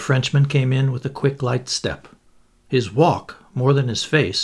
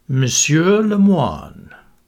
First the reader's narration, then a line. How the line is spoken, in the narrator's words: announcing in a lugubrious voice